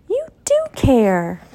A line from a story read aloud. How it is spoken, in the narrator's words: she exclaimed